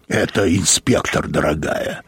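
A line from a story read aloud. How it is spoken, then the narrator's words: Creaky voice. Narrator (Russian): проскрипел Мозес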